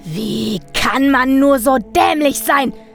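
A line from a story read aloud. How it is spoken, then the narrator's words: Screaming at full volume. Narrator (German): schrie aus voller Kehle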